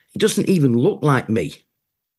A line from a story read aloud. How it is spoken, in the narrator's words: stammered